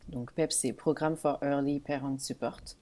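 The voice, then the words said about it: English with a French accent. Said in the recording (French): “avec un bon accent français”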